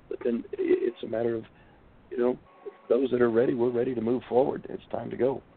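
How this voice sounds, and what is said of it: Hoarse, strained, fading voice. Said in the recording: “I'm losing my voice. ... Yeah, a little bit.”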